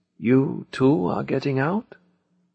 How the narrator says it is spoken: In a tired voice he asked me

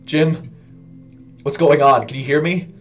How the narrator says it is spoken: cried

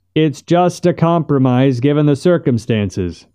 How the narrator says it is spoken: shouted Buck

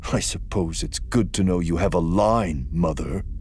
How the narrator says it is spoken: her son said bitterly

